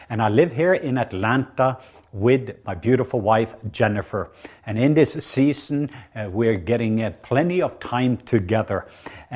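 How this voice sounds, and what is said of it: Norwegian accent. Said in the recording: “I'm from the country of Norway. I know that's surprising to some of you because my accent.”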